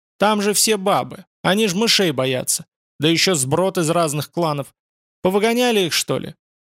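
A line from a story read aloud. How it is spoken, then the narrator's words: Sharp. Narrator (Russian): Барбарус сказал резко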